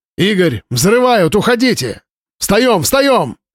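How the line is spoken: Shout. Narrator (Russian): закричал Маланин

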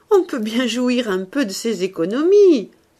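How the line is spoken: Cheerful speech. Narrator (French): continua-t-il gaiement

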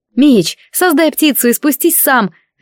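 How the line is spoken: Helpful shout. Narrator (Russian): желая помочь, крикнула я

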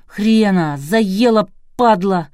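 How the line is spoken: Angry shout. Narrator (Russian): злобно выкрикнул Глеб

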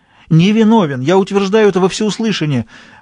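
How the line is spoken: Exclaimed. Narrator (Russian): воскликнула Стефания

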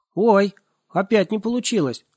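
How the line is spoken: Shouting. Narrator (Russian): закричал он

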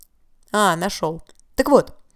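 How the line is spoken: Loud reading aloud. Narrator (Russian): он стал громко читать

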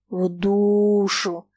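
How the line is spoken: Contemptuous drawl. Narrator (Russian): презрительно протянул Фома

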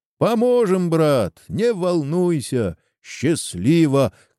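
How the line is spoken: Guests shouting after. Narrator (Russian): кричали ему вслед гости

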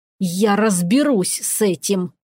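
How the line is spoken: Hiss. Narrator (Russian): прошипел храмовник

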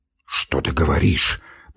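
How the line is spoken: Mumbled. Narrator (Russian): пробормотал Самойленко

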